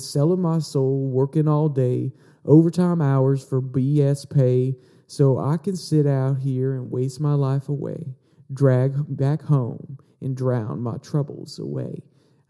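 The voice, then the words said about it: Put-on Southern US accent. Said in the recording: “did you guys like my, my southern accent there a little bit? I mean, maybe I didn't get it quite right”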